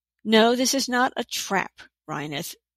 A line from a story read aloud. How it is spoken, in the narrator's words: Kirra said quite loudly